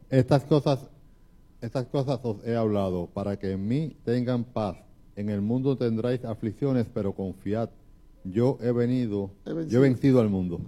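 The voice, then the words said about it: Announcer-style voice. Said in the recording (Spanish): “con esa voz de locutor.”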